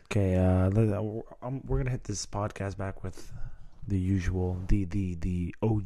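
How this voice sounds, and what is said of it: Tired, low-energy morning voice. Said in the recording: “Talking in your morning voice? ... because I'm exhausted ... Come on, pep up.”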